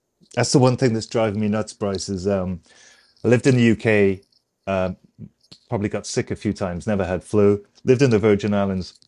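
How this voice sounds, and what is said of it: Sick-sounding voice with coughing. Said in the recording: “excuse my voice. I'm just getting over a flu, so I have a little bit of coughing to do.”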